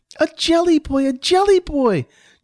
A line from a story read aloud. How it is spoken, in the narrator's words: Johnny squealed in joy